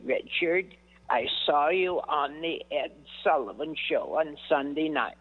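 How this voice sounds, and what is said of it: Impression of an elderly mother. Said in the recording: “I can still imitate my mother... My mother was one of my best impressions”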